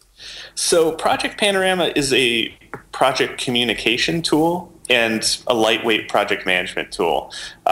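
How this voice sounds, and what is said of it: English accent. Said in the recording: “That might just be my English accent.”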